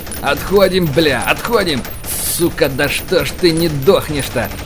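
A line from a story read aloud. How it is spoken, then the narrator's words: Ferocious roaring. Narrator (Russian): ОМОНовец рычал так, что, наверное, мог бы медведя в тайге запугать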